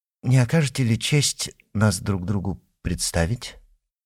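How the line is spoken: Almost gentle suggestion. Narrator (Russian): почти ласково предложил вошедший

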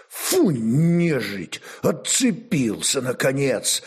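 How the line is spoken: Relieved exhale, commander. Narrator (Russian): облегченно выдохнул воевода

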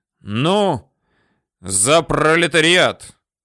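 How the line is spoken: Loud speech. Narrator (Russian): товарищ Тыжных показательно и назло кому-то сказал громко

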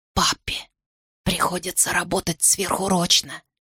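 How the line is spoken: Whisper. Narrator (Russian): прошептала мама

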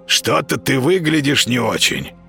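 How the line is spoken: Hoarse rasp. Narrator (Russian): прохрипел кот

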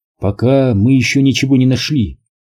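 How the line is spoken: Plain. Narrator (Russian): ответил Рут

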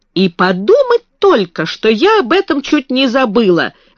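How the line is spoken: Sudden exclamation. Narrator (Russian): воскликнула она вдруг

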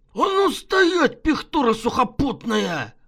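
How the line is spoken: Drunken bark from above. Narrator (Russian): Пьяно гаркнула откуда-то сверху

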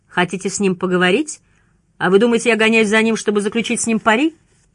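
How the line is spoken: Judge giggling. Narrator (Russian): Судья хихикнул

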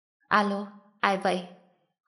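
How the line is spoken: Cold, commanding voice. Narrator (Vietnamese): trong giọng nói lạnh lùng đã toát ra khí thế không ai sánh bằng

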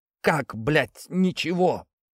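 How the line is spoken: Sobbing. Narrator (Russian): Наташа всхлипнула

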